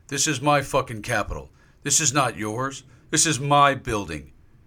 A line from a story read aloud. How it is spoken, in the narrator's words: James shouted at officers inside the rotunda